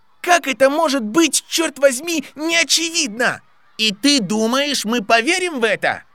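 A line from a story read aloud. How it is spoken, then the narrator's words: Shouting back. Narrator (Russian): Заорал в ответ Кевин Энсвилл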